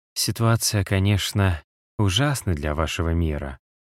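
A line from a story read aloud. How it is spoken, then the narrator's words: Quiet. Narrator (Russian): сказала она тихо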